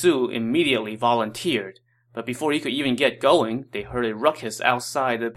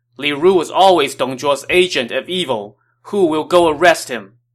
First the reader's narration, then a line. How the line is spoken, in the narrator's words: Li Bu shouted